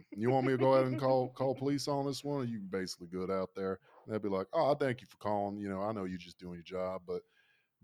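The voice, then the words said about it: Fake Southern accent. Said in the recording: “fake Southern accent”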